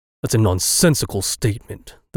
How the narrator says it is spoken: the Baron rumbled

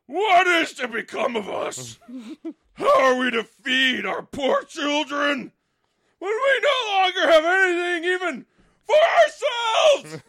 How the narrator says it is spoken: in his anxiety, he groaned and said

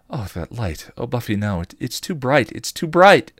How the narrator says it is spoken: cried, starting to panic

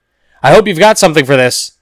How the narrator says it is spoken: the officer said, yelling above the sound

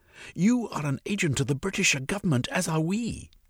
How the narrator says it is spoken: he croaked

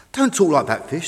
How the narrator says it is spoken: said Tug

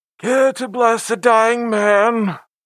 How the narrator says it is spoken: asked, his voice muffled by the bandages covering his face

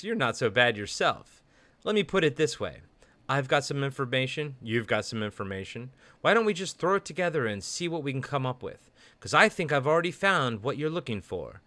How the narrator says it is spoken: Peter chuckles and replies

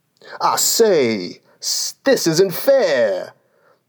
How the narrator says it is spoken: the unicorn cried

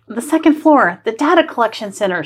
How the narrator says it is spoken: she gasps

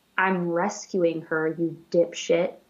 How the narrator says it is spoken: You hear a whisper that says

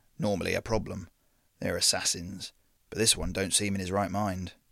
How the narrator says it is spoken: Victor murmured

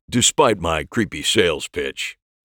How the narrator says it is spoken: said with a chuckle

